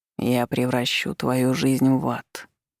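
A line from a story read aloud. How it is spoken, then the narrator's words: Hoarse promise. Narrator (Russian): хрипло пообещал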